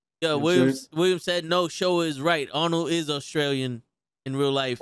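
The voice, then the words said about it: Strong Bronx accent. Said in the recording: “I have a strong accent. ... He got a strong Bronx accent.”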